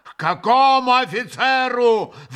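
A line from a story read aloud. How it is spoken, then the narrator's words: Yelling. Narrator (Russian): вопил Митя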